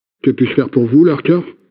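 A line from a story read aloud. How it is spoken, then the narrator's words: Plain. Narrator (French): demanda l'agent Birdwatcher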